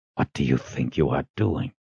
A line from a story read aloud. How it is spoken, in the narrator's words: whispered